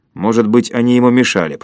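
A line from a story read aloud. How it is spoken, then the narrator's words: Grumbling. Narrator (Russian): проворчал Комов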